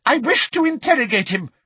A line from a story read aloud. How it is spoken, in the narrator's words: shouted Umbridge angrily